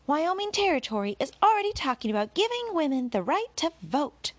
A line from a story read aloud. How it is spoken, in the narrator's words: called out